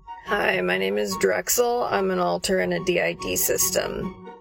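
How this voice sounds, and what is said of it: Heavy vocal fry voice. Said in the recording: “This vocal fry with this music ... upbeat vocal fry”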